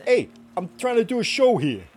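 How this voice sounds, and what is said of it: Put-on New York accent. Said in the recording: “Do your accent, babe. Do your New York accent. ... It's like I was born and bred here. ... It's like it's a New Yorker in here.”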